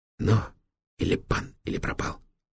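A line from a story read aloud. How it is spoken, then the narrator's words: Eager whisper. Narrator (Russian): азартно прошептал Витек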